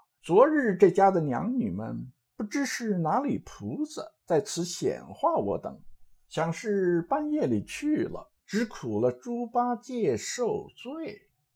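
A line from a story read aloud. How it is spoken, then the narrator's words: Laughing. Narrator (Chinese): 行者笑道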